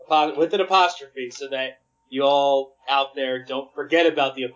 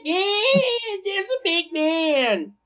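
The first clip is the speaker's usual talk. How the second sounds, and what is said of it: Imitates a little kid's voice. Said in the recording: “my little kid impersonation”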